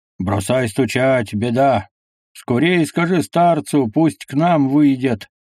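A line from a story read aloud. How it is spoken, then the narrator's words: Loud, out of breath. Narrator (Russian): Тяжело дыша, громко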